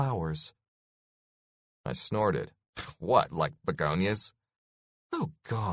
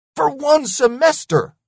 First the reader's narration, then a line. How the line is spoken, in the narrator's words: I yelled